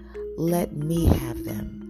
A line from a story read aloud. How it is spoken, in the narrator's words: Jesus replied